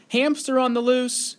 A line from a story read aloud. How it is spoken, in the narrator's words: yelled Billy